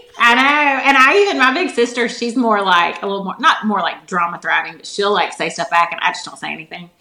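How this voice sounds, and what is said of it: Fast-talking Southern American accent. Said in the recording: “you talk too fast. I can't understand you with your southern accent.”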